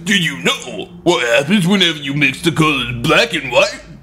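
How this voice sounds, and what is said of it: Sylvester Stallone impression. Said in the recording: “you really nailed that impression”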